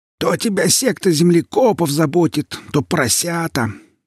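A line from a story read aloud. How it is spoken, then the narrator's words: Grumbling. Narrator (Russian): заворчала Яга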